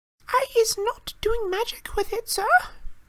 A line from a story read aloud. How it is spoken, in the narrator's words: squealed Winky, tears streaming down the sides of her squashed and bulbous nose